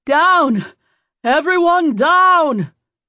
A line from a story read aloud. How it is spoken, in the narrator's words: someone started yelling